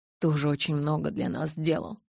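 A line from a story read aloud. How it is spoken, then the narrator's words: Quiet. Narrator (Russian): тихо произнес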